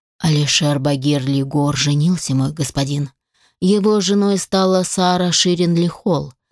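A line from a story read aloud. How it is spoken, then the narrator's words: Melodious voice, reporting. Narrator (Russian): мелодичным голосом доложил убийца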